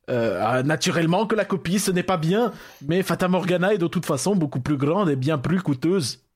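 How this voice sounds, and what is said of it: Put-on Dutch accent sounding Russian. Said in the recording (French): “ton accent hollandais, il est très russe, je trouve. ... Il a commencé un petit peu allemand, il a fini sur le russe.”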